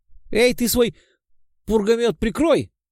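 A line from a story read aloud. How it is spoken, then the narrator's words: Nervous yell from behind. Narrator (Russian): завопил нервным голосом кто-то, стоявший сзади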